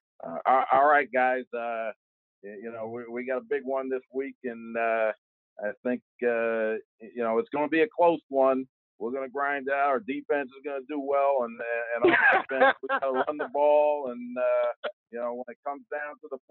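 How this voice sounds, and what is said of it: Thick Pittsburgh accent, side-of-mouth talk. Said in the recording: “you got to go thick with the Pittsburgh accent. ... kind of talk a little bit out of the side of your mouth”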